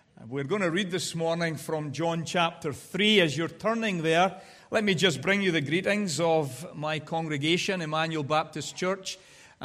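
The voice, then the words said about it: Scottish accent. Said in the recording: “we spoke in our dulcet Scottish accents that you all love to listen to”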